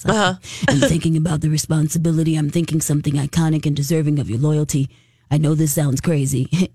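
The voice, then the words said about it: Deep-voiced Vin Diesel impression. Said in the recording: “I'm trying to do the deep voice.”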